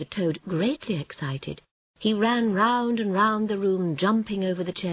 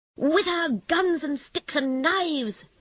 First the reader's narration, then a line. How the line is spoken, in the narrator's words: shouted the Rat